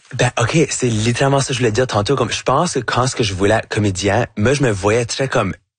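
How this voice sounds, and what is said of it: Acadian French accent. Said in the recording (French): “votre accent acadien ... j'ai un accent qui va jamais être neutre”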